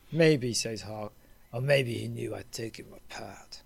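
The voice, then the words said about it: Imitates another person's voice. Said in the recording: “very good impersonation... a better, better Jan Michael Vincent than Jan Michael Vincent”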